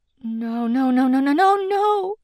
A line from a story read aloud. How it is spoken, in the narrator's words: Dee stammered